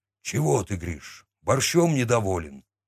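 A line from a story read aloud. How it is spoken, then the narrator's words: Gruff grunt. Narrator (Russian): буркнул Михалыч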